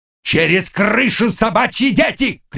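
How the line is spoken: Shouted. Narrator (Russian): крикнул он

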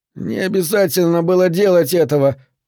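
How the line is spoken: Whimpered. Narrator (Russian): прохныкал Скарф

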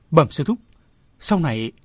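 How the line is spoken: Stammering. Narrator (Vietnamese): Chàng lại ấp úng nói

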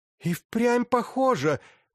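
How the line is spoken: Exclaiming. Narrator (Russian): воскликнула она

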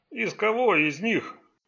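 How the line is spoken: Fat policeman's grumble. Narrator (Russian): проворчал жирный полицейский

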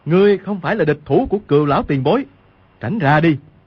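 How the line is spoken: Shout. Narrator (Vietnamese): Quách Tĩnh quát lên

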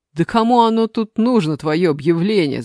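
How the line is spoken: Shouted. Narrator (Russian): закричал Саша

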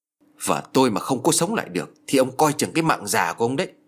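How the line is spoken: Menacing, harsh voice. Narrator (Vietnamese): Gã phu ngựa gằn giọng

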